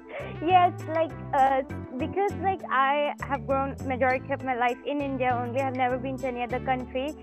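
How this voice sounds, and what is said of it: Indian English accent, somewhat mixed. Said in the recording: “people that spoke with Indian accents ... So your accent would be perfect for that ... my accent is kind of like mixed now”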